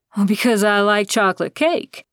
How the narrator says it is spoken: Dan said with a laugh

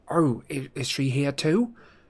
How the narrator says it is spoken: Harry croaked

